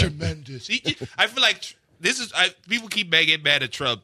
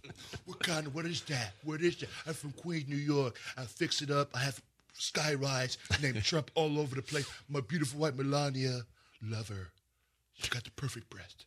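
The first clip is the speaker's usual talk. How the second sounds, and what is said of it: Donald Trump impression. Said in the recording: “That's a good impression of Trump.”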